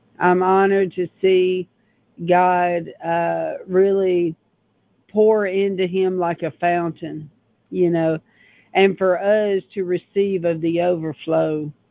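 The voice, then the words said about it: Strained, unwell-sounding voice. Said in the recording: “excuse my voice. I'm still recovering.”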